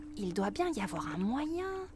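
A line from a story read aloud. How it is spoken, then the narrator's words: Whispered. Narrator (French): murmure Flora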